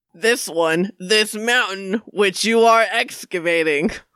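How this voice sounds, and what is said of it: Strange character accent. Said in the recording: “your accent, it's a little bit strange”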